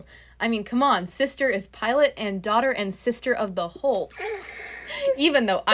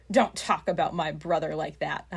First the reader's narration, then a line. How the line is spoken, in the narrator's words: I growl at him